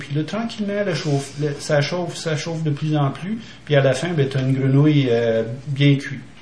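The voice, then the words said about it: Québécois accent with English influence. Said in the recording (French): “ça fait un accent un peu bâtard, un peu mélangé. J'ai un peu de résidus d'influence anglophone ... ils vont juste trouver que j'ai un accent québécois”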